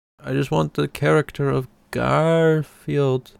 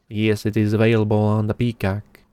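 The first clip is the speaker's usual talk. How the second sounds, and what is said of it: Speaks in a put-on accent. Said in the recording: “I don't know why I turned into this accent.”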